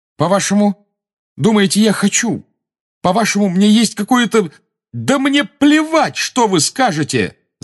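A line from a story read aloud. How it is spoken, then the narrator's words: Shouted. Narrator (Russian): закричал Гарри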